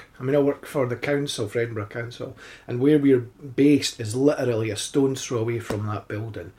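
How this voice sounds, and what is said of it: Dreamy-sounding accented voice. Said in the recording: “your voice is so I've got to be careful what I say, but dreamy ... I love that accent.”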